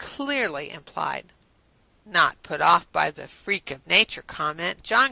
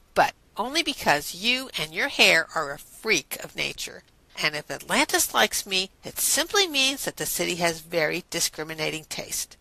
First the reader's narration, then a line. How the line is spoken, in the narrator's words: Rodney allowed in a disgruntled tone